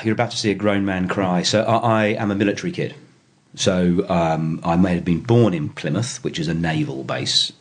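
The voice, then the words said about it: English accent. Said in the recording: “accent sounds like you are, however, not from Sydney ... I am a Pom ... I heard myself on an answer machine and I sound like Prince Charles”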